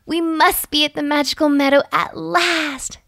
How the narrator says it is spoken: she cried

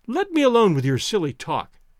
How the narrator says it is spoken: cried Toinette gaily

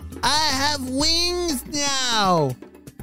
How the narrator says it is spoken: Lily yelled with excitement

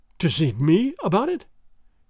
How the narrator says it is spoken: gasped Don Carlos, with something of fear and a great deal of hope in his breast

